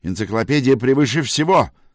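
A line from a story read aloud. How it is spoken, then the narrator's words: Barked. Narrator (Russian): рявкнул Краст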